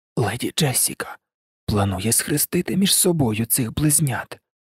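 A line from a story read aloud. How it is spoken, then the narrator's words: Hoarse. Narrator (Ukrainian): прохрипів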